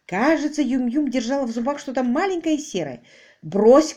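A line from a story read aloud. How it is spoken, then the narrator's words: Shout. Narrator (Russian): крикнул ей Квиллер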